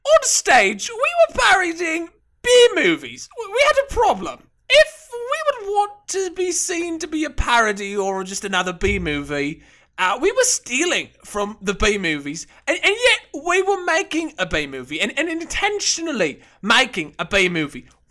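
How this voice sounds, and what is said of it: Put-on British accent. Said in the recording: “my third British accent of this episode”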